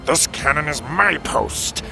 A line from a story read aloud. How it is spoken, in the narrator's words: snarled the other